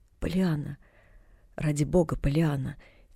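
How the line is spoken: Quiet pleading. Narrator (Russian): тихо возмолился в ответ мистер Пентон

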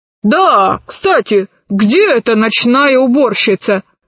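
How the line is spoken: Menacing shout. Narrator (Russian): грозно крикнул профессор

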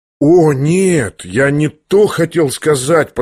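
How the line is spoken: Drawn out after pause. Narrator (Russian): протянул вдруг князь после некоторого молчания

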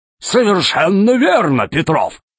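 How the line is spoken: Exclaiming. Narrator (Russian): воскликнул Громозека

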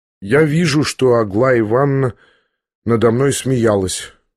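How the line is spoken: Sad reply. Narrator (Russian): грустно ответил князь

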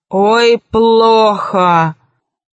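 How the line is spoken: Growling. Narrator (Russian): зарычала она

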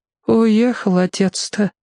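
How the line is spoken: Sad grandmother. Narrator (Russian): печально сказала бабушка

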